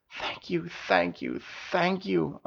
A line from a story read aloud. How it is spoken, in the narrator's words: Princess heard her parents and grandfather whisper